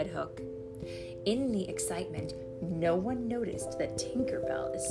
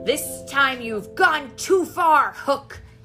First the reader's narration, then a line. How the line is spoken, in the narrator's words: Peter cried